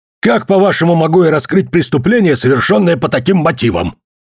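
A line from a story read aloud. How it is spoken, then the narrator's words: Angry question. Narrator (Russian): сердито спросил Билли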